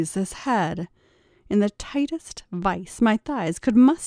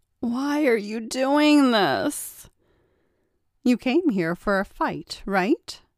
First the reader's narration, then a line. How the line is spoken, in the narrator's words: He finally regained the power to speak and moaned